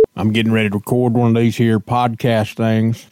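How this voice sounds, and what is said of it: Silly funny put-on voice. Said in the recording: “funny voice ... speaking in a silly voice”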